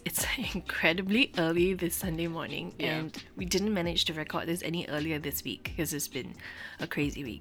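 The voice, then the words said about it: Raspy voice. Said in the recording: “Don't mind my raspy voice ... you're just going to have to listen to me with my raspy voice”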